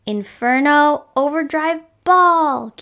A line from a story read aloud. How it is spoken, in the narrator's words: Kiawe cried